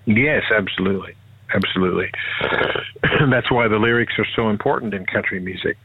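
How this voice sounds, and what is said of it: American accent. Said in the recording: “is that an American accent or Canadian? ... American. ... American accent.”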